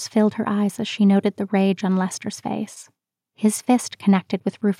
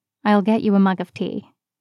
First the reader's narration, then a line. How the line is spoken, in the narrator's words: he said